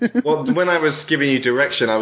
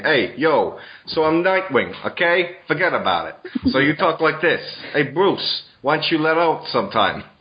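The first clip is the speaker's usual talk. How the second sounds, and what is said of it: Mock New York gangster accent. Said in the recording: “I can't really do a New York accent very well ... I was basically just being Carmine Falcone from Batman Begins”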